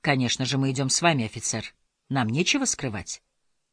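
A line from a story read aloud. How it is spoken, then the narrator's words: Calm. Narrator (Russian): спокойно сказал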